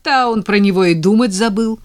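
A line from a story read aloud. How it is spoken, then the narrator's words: Laughing loudly. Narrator (Russian): расхохоталась Надя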